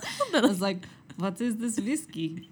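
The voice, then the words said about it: Put-on Russian accent. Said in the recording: “Sorry to the country of Russia. ... I'm working on my accents.”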